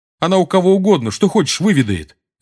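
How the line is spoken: Sharp. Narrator (Russian): резко сказал ему Симус

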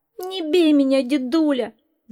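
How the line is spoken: Fox pleading. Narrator (Russian): взмолился лис

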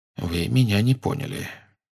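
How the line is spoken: Calm. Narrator (Russian): все так же спокойно сказал Дамблдор

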